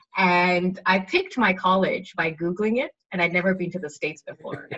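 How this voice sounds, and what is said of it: Mixed, hard-to-place accent. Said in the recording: “growing up, I lived in 7 countries. So just my accent goes all over the place”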